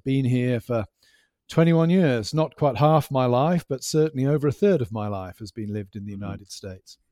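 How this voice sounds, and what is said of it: Non-American accent, slightly Americanized. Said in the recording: “you still have the accent, which is very charming ... I sounded slightly American”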